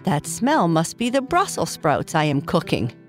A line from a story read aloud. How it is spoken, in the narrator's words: Papa Bear said with a laugh